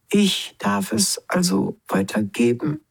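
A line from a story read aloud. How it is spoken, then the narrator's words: Plain question. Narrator (German): fragte Smilax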